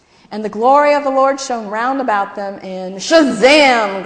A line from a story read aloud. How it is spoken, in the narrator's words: Gladys yelled